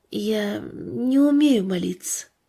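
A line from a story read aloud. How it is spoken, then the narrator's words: Quiet, almost inaudible child. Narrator (Russian): Мальчик тихо, почти неслышно произнес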